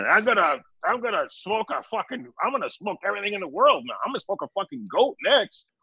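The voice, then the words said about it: Imitates another person's voice. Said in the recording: “Your Roger impression is dead on”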